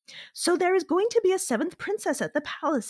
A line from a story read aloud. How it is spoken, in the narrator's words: exclaimed the housewives of Phanf